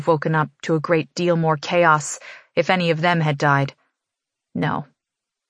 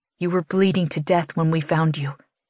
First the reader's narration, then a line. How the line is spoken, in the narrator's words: he whispers, as if even the memory is too horrible to recall at a normal volume